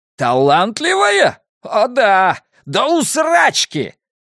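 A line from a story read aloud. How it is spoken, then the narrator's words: Yelled. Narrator (Russian): завопил Скип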